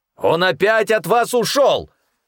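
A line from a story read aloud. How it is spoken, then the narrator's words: Sudden angry bark. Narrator (Russian): Внезапно рявкнул Эрхазепа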